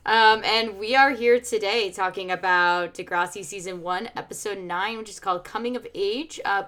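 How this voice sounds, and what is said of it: Slightly raspy voice. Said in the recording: “slightly raspy-voiced”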